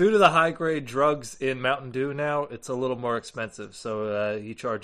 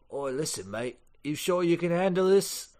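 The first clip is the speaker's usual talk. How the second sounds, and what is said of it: Silly put-on Cockney-Australian accent. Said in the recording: “Real uncomfortable with that fucking accent ... I love making fun of British accents ... Love doing them real silly like that. Lots of oys and thens ... a Cockney English accent somewhere in Australia ... a little terrible ... Bit of New Zealand in there too”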